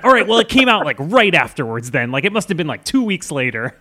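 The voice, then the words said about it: Imitates another person's voice. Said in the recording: “A very good Quentin impression,”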